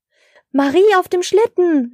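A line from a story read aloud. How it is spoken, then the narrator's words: Surprised call. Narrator (German): rief Herr Schneemann überrascht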